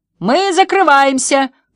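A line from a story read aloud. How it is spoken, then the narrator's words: Shouting. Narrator (Russian): прокричал Финн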